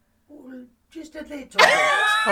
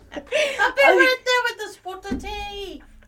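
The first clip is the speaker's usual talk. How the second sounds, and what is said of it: Put-on British accent like Mary Poppins. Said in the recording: “Oh, I sounded a little bit like Mary Poppins.”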